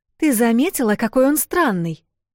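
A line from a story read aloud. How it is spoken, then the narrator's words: Exclamation. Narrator (Russian): воскликнула Эл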